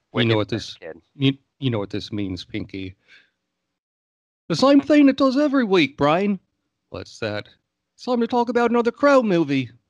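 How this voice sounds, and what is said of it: Poor imitation of cartoon character voices. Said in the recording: “Those are terrible impersonations”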